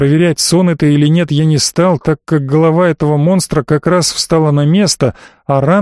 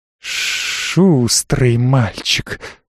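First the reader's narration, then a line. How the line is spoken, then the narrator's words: Hiss. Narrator (Russian): вновь прошипела она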